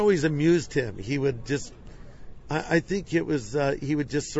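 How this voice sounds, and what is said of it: Usual voice. Nothing is said of it.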